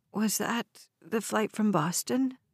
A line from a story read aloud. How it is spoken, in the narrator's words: Alice asked, her voice weak